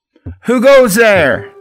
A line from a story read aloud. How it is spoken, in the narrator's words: yell out